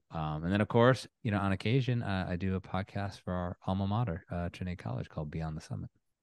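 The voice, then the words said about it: Polished radio-style speaking voice. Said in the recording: “You definitely have a radio voice.”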